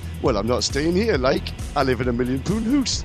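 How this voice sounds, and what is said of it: Imitated northeast English accent. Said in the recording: “he's from the northeast, excuse my accent.”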